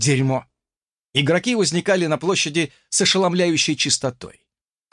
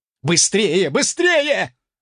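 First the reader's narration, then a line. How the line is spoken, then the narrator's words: Yelled from behind. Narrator (Russian): заорал кто-то позади меня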